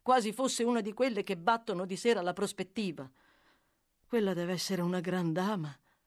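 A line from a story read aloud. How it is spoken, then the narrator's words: Sighing. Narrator (Italian): proseguì egli sospirando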